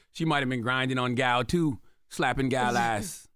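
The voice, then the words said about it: Put-on accent. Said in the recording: “What accent was that? ... Safari.”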